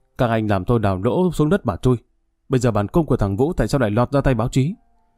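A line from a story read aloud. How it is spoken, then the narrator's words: Harsh, sharp voice. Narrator (Vietnamese): Tiếng Đại tá Hưởng gay gắt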